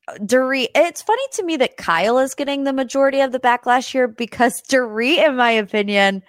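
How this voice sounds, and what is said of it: Usual voice. Nothing is said of it.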